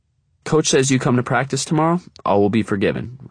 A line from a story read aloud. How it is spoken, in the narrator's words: Russ says